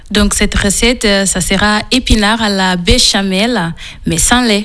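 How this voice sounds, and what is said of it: Slight Portuguese accent in French. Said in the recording (French): “vous avez un petit accent ... Il vient du Portugal.”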